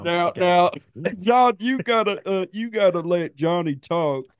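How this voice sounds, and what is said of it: Imitates another person's voice. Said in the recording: “That wasn't bad. That was good. That's a decent impersonation.”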